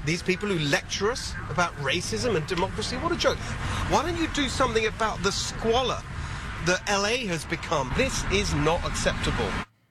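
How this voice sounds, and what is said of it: British accent. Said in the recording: “a Republican with a British accent”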